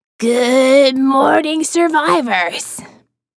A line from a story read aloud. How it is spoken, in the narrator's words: a two-pack-a-day voice growl